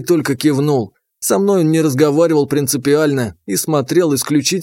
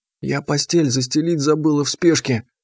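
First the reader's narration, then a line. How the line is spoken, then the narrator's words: Guilty whisper. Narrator (Russian): виновато шепнула Глашка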